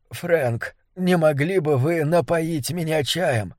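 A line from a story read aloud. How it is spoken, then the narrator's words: Soft whisper. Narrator (Russian): он тихо прошептал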